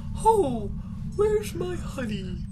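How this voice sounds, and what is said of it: Cartoon bear character voice. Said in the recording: “impression of Little Pooh Bear”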